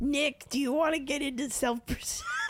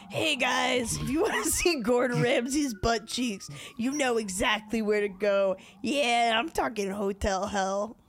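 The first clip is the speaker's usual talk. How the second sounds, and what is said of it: Impression of a podcast listener. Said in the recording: “That's pretty good. That's pretty good, I think, impression. ... It's a pretty good impression of our listener.”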